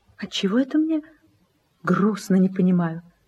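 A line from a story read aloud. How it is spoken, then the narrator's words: Half-voiced question. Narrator (Russian): спросила вполголоса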